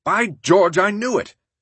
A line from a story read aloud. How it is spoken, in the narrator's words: exclaiming